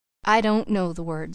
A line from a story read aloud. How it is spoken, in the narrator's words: said Mrs